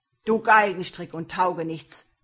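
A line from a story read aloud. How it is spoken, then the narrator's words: Angry shout. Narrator (German): rief er zornig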